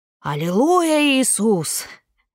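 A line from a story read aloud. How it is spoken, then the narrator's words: Very loud. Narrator (Russian): очень громко произнес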